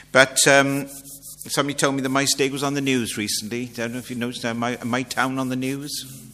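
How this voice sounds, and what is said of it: South Welsh accent. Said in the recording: “Maesteg's in South Wales. You'll never guess it from my accent,”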